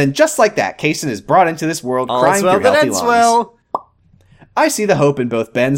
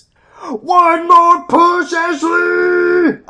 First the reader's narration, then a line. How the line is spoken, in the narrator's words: I yell